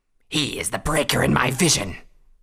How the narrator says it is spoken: Regeskra snarled back

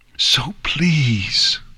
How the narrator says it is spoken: Celestia whispered

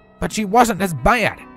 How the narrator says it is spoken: Applejack snapped back

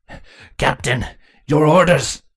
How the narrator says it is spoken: Cardis snarled as he saw the drones of Crudelis ransacking their home

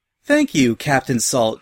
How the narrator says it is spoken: she cheerfully replied

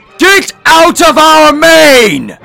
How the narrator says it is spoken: Luna bellowed as the Royal Canterlot voice echoed through her mane and shook each ship in its place

